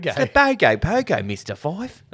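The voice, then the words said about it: Full-on harsh Aussie accent. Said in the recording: “The way they say it. ... how full-on the accent sounded? ... Paul Mercurio's got a pretty harsh Aussie accent.”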